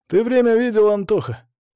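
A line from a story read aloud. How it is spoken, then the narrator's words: Words breathed out. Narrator (Russian): Я выдохнул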